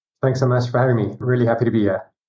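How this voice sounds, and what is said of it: South African accent. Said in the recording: “a bit of an accent there ... South Africa”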